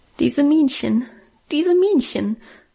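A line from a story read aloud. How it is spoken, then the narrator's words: Stifled sobbing. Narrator (German): schluchzte ich unterdrückt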